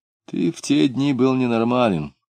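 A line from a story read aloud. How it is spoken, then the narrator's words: Calm reminder. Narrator (Russian): спокойно напомнил Клим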